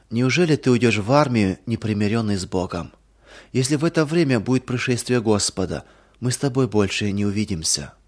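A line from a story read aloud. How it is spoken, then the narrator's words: Sad. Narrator (Russian): уже не первый раз печально говорила Нина Матвеевна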